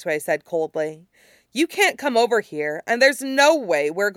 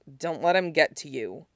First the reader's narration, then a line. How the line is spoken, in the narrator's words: the firebender murmured